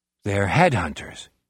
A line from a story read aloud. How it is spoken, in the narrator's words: Jack murmurs